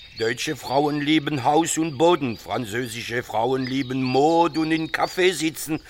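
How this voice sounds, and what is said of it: Foreign-accented German. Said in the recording (German): “Sie sprechen aber mit Akzent.”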